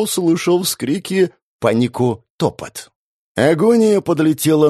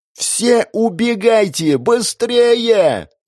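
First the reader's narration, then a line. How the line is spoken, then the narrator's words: Magically amplified yell. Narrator (Russian): заорала Катя усиленным магией голосом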